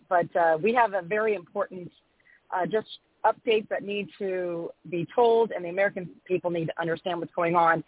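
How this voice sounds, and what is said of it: Slightly scratchy voice. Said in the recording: “I'm a little under the weather, so if my voice is a little scratchy”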